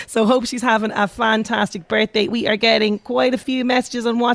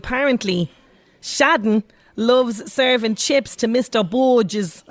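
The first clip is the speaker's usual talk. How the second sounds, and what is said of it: Put-on Dublin accent. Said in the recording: “That's my best Dublin accent from the snapper”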